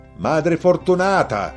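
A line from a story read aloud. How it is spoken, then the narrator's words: Shouting over gunfire. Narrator (Italian): Le gridò fra gli spari e i corvi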